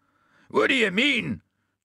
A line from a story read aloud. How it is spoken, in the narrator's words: shouted the puddin'